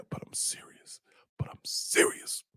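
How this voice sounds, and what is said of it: Whispering. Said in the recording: “I'm whispering because she's in the other room”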